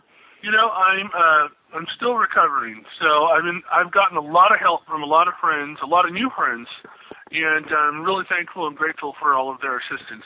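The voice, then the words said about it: Audibly affected, impaired voice. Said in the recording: “you can obviously tell my voice is still affected”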